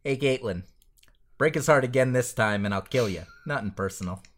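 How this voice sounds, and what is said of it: Impression of Randall from Clerks. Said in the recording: “your Randall accent is so much better than mine”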